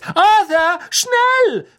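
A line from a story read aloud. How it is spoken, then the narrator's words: Calling out. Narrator (German): rief Mrs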